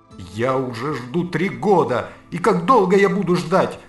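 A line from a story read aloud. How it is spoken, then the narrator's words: Angry question, wolf. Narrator (Russian): разгневанным голосом спросил черный волк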